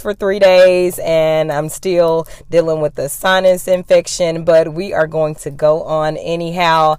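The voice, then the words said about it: Slightly raspy, hoarse voice. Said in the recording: “My voice is still just a little raspy. It has gotten so much better. I was hoarse”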